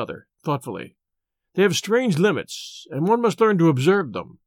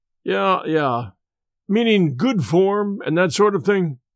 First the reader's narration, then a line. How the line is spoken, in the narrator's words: Van Bork sighed, as one who had suffered much